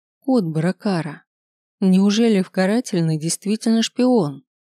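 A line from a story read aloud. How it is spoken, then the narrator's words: Thin moan. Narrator (Russian): тоненько застонала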